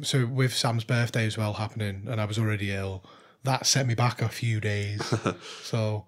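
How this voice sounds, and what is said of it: Weak, hoarse voice from illness. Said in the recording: “my voice isn't there. It's just gone.”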